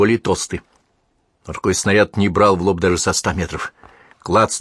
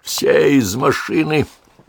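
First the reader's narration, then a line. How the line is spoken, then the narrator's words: Hoarse rasp. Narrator (Russian): прохрипел он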